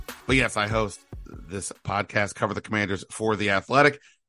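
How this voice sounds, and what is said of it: Voice sounds strained, not right. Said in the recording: “You can probably tell that because my voice is still not right.”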